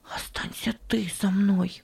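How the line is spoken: Whisper. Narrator (Russian): прошептал он

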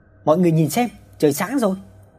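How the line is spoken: Husband shouting loudly. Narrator (Vietnamese): Chồng hét to

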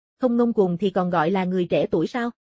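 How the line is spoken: Sarcastic retort. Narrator (Vietnamese): Mộ Phong mỉa mai đáp trả

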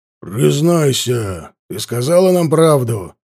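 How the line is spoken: Growl. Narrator (Russian): прорычал он

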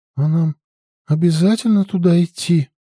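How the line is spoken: Dejected question. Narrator (Russian): спросила Алича упавшим голосом

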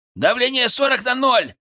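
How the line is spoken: Shouted. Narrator (Russian): крикнул Артем

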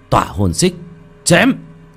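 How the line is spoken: Loud shout. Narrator (Vietnamese): Một tiếng hét lớn vang lên

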